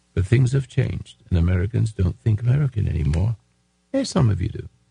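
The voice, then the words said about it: English accent. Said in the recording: “I speak with an English accent”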